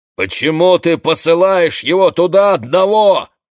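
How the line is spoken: Shouting. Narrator (Russian): кричал

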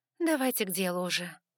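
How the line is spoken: Weary request. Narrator (Russian): устало попросила я

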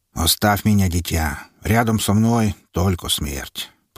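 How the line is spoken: Low, dry voice. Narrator (Russian): произнес отец Дионисий низким, сухим голосом

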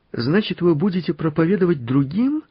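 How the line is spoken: Joyful exclamation. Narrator (Russian): радостно воскликнул Мартынка

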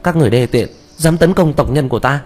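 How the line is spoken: Loud, anxious. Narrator (Vietnamese): lớn tiếng nói, trên mặt lộ ra lo âu

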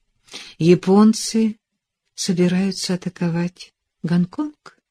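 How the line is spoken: Quiet question. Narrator (Russian): тихо уточнила она

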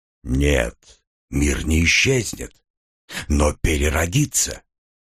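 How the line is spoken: Quiet reply. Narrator (Russian): так же тихо ответил голос

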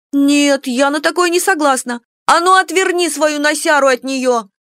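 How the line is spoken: Very loud shout. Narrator (Russian): Кика так громко закричала, что все, кто был в столовой, обернулись на ее голос

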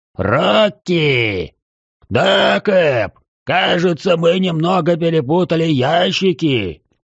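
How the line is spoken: Distant yell from boat. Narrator (Russian): Заорал из баркаса мой знакомый гробовщик

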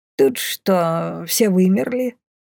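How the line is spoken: Puzzled mutter. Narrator (Russian): озадаченно пробормотала Бумба

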